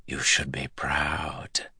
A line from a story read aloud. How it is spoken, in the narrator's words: whispered